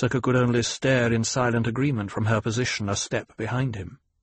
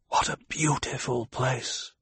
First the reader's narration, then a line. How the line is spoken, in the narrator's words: Paul whispered